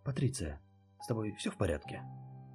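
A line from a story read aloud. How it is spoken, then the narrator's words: Anxious question. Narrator (Russian): Взволнованно спросила Лор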